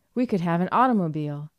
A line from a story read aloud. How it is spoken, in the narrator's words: exclaimed Dot in a final burst of triumph